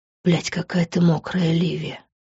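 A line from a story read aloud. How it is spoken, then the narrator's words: Breathed against lips. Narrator (Russian): выдохнул он в мои губы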